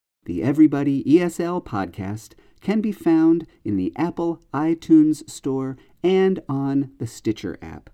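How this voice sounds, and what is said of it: Slightly off, sick-sounding voice. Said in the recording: “my voice sounds a little bit funny, that's probably because I'm feeling sick today”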